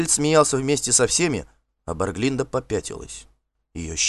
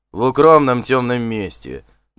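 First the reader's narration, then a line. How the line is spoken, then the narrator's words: Offended. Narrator (Russian): добавил обиженный Вандер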